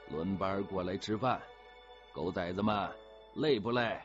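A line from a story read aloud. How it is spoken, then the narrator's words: Loud orders while walking. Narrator (Chinese): 一头走一头大声吩咐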